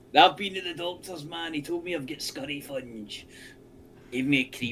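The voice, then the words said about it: Put-on Welsh accent. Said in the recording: “It's a good word to see with a Welsh accent.”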